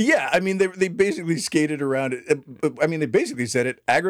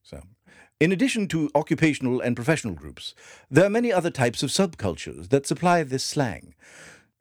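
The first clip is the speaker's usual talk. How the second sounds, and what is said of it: Put-on British accent. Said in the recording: “I'm going to read it in a British accent too.”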